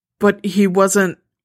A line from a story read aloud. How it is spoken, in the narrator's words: she grunts in frustration